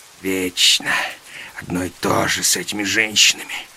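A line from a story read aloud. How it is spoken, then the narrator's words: Muttering. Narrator (Russian): бормотал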